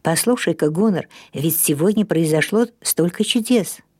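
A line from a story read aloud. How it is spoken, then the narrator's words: Whispered. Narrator (Russian): прошептал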